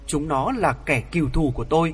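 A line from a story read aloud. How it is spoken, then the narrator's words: Hateful hiss, then soft. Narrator (Vietnamese): Ngô Tiểu Mi cất tiếng rít căm hờn, đoạn nhỏ nhẹ đáp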